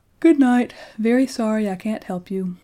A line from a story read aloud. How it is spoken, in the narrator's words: he said, yawning